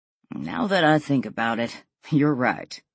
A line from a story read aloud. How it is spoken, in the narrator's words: Will chuckled